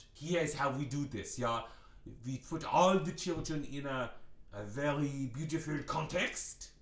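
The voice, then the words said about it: French accent. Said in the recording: “I get this French accent”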